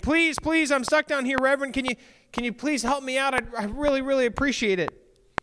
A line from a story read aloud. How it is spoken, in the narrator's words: the woman saw him, and she starts screaming